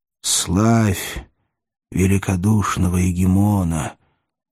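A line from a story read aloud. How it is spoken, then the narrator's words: Solemn whisper. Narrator (Russian): торжественно шепнул он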